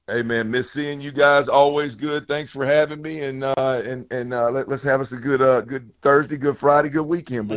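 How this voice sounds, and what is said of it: Southern drawl. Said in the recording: “southern drawl”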